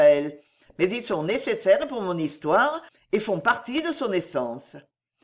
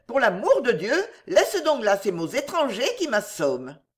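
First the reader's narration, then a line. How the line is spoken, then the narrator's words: Exclamation. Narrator (French): s'écria la marquise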